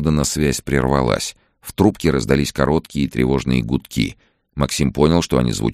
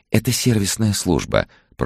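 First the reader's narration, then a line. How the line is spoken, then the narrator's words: Gentle female cooing. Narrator (Russian): проворковал нежный женский голос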